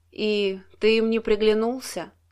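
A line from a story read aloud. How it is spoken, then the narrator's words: Sigh. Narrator (Russian): вздохнула она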